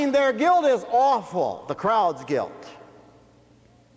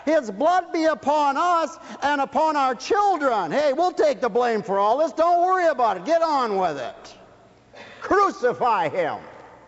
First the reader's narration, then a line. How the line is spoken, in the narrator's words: the crowd shouted back